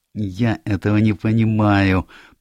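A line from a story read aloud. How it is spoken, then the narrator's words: Moaning. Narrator (Russian): простонал мой друг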